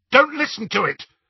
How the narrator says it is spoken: Harry said harshly

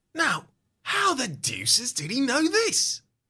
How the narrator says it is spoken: He mutters

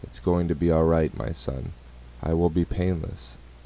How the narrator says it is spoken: said softly, letting out a tear

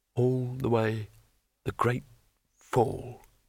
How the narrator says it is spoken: muttered Rincewind

